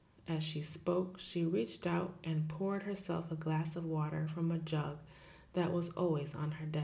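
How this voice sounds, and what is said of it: Usual voice. Nothing is said of it.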